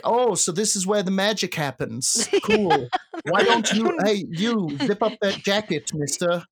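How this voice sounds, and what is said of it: Elon Musk impression. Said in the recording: “The owner is fucking Elon Musk ... You nailed this accent.”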